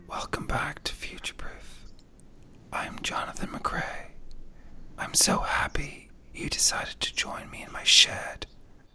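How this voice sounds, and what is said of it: Soft whispery ASMR-style voice. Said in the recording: “No, I haven't lost my voice or had a stroke. I'm trying to elicit ASMR in you.”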